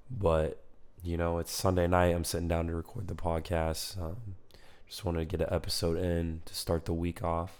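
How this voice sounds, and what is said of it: Hoarse, almost lost voice. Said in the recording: “a little sick, as you can tell from my voice ... yelled a lot, screamed a lot ... my voice is almost completely gone”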